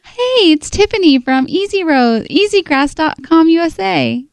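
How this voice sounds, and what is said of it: Put-on fake voice. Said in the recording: “I like the fake voice”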